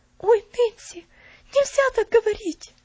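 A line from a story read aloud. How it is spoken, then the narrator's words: Frightened exclamation. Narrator (Russian): испуганно воскликнула Пуляна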